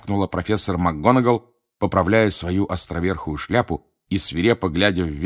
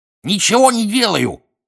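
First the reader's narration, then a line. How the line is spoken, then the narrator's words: Cackling. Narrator (Russian): прокудахтал Пивз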